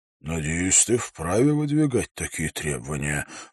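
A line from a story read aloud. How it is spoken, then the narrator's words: Sighing. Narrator (Russian): вздохнул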